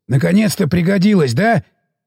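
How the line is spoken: Glad, pleased. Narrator (Russian): порадовался за товарища Сиплый

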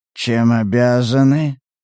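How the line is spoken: Hoarse inquiring voice. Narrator (Russian): осипшим голосом поинтересовался коллекционер

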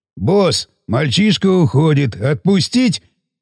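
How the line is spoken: Deep bass over phone. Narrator (Russian): Пробасил он в трубку

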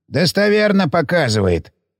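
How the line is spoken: Snorting scoff. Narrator (Russian): хмыкнул Гейгер

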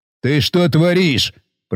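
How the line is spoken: Growl close to ear. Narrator (Russian): прорычал капитан мне в ухо

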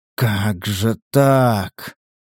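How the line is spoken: Bewildered drawl. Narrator (Russian): растерянно протянул охотник

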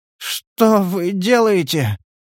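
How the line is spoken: Slurred mumble. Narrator (Russian): промямлил заплетающимся языком Стас

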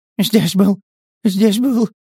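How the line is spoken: Babbling. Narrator (Russian): залепетал Валя

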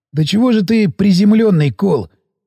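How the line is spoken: Sighing. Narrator (Russian): вздохнул медик

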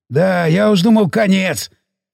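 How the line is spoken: Nervous chuckle. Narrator (Russian): нервно хохотнул Сиплый

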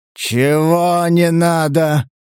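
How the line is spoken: Growling tone. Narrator (Russian): В голосе Сатурна отчетливо зазвучали рычащие нотки

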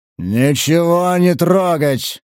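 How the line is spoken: Booming thunderous bass nearby. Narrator (Russian): прогудел рядом громоподобный бас

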